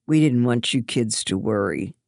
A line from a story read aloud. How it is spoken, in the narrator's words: her dad sighed